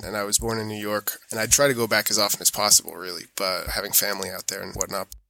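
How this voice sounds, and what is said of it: American accent. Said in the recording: “my mom's American, hence the accent”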